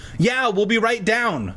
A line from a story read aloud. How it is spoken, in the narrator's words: I shouted